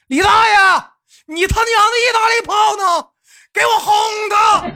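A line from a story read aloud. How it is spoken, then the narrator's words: Anxious loud shout. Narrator (Chinese): 豆瓣急了，提高了嗓门，大声的喊道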